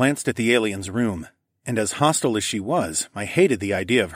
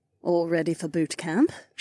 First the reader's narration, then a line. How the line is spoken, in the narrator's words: purred